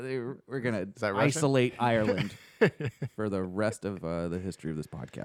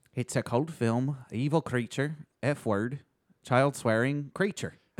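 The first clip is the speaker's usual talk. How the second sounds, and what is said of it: Put-on Irish accent. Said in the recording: “Now say them all again with an Irish accent.”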